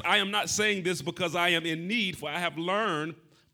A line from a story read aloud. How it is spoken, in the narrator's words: Paul says